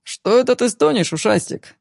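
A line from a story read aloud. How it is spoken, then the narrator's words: Cheerful, squealing with laughter. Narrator (Russian): Весело, чуть ли не повизгивая от смеха, произнес Игорь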